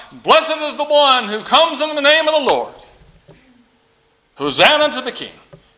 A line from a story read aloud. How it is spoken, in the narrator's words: the people shout